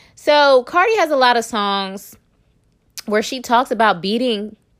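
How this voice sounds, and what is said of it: Usual voice. Nothing is said of it.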